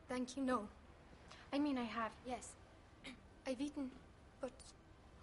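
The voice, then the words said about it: Foreign immigrant accent. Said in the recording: “a bit of the old country I hear in your voice ... I sound like an immigrant”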